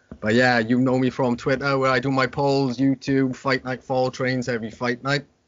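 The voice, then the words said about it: Strong Welsh accent. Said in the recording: “I have got a strong Welsh accent.”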